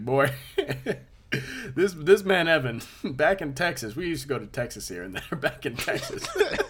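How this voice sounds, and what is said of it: Put-on Southern accent. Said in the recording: “a southern tell. Accent out of nowhere”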